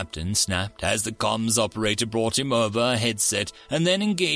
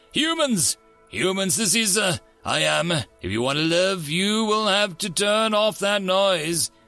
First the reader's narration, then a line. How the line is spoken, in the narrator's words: the captain shouted